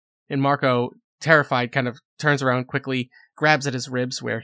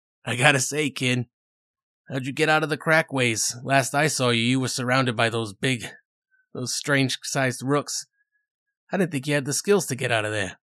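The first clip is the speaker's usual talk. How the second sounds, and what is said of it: Brooklyn accent character voice. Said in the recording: “that kind of Brooklyn accent”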